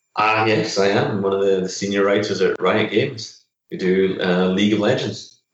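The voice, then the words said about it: Scottish accent. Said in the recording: “your accent is betraying you a little bit. You're not from around here ... I'm originally from Scotland”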